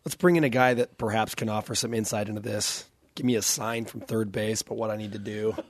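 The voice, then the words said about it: Hoarse, strained voice. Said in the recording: “I lost my voice? ... Because I was yelling so much at the BYU-Utah baseball game”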